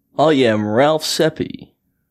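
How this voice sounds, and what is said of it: Put-on radio voice, Kiwi-like accent. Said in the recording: “This was my radio voice. ... It sounded like a Kiwi accent ... This is my radio voice. ... Your podcast voice is coming out.”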